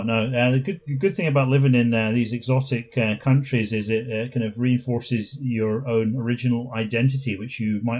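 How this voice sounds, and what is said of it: Mild Scottish accent with London traces. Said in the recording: “your accent is not like stereotypically Scottish ... it has elements of London”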